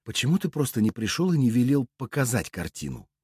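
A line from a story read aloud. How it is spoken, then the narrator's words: Quiet question. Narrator (Russian): тихо спросила ведьма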